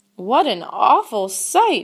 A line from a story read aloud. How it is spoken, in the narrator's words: exclaimed